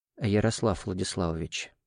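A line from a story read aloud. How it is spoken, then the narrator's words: Quiet. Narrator (Russian): негромко обратился ко мне Кириллов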